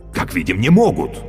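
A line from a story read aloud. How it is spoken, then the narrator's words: Exclamation. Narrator (Russian): воскликнул Каще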